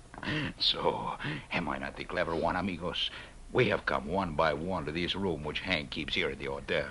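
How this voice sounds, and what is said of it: Low voice. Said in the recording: “talked in a low voice.”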